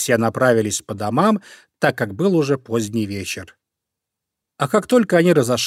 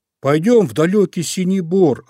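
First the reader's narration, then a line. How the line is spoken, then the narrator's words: Bear cub shouting. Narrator (Russian): закричал Мишка-медвежушка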